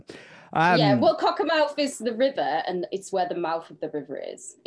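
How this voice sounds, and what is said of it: Cumbrian English accent. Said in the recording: “Do have Cumbrian accent”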